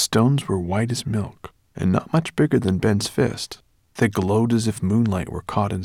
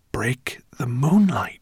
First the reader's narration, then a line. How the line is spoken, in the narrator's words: whispered Ben